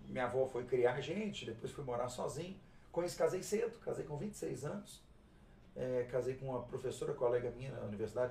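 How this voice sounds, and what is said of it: Belo Horizonte Brazilian Portuguese accent. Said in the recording (Portuguese): “o sotaque seu é bem Belo Horizontino”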